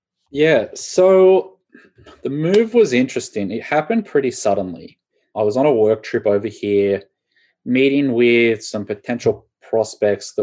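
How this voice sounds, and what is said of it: Australian accent. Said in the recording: “we can hear the Australian accent and we know that you're an Aussie”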